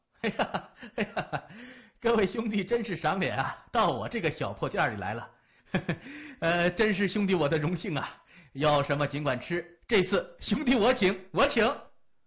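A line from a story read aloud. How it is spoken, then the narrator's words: Nervous smiling. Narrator (Chinese): 那老板以为自己惹上什么事儿了 见人就笑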